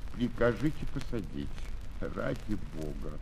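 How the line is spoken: Hesitant pitiful plea. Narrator (Russian): Он просил нерешительным и жалким голосом

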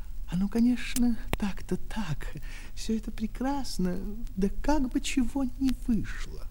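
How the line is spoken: Quiet speech. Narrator (Russian): говорил тихо

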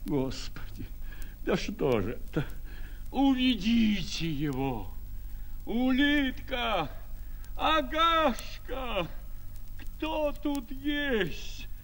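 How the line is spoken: Sick man moaning. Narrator (Russian): стонал больной

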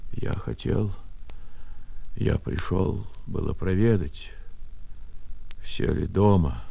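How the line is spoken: Quiet, faltering. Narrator (Russian): тихо отвечал Архип, запинаясь

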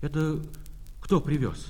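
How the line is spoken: Plain. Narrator (Russian): спросил он

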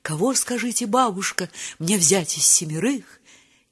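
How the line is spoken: Stealthy child's whisper. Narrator (Russian): внучка в полночь крадучись шепнет

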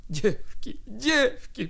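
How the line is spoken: Moaning. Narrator (Russian): простонала она

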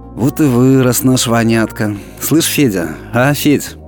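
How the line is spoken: Warm, affectionate. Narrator (Russian): тепло улыбнулась и ласково сказала ему вслед

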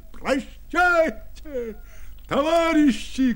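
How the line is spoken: Shouting from above. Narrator (Russian): кричал он им сверху

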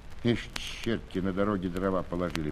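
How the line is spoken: Grumbling. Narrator (Russian): проворчал он

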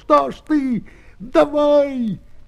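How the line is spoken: Wild shout. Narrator (Russian): Лапу, обернувшись к Петру, закричал диким голосом

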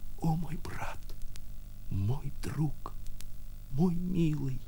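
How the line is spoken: Tender passionate whisper. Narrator (Russian): шептали ее губы, так сладостно билось и таяло в ее груди

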